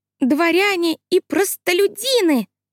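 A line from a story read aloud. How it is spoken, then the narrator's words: Squeaky. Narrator (Russian): Она пропищала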